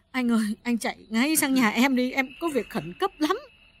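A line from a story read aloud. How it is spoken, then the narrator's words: Sobbing, tearful plea. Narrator (Vietnamese): Bà Hà sụt sùi bảo Tấn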